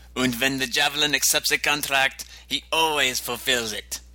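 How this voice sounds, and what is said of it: Put-on German accent. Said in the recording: “That's my best German accent, sorry.”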